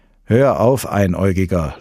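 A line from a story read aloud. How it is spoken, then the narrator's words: Laughing. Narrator (German): lachte Walter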